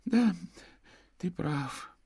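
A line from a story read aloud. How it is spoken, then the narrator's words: Mumbled. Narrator (Russian): пробормотал он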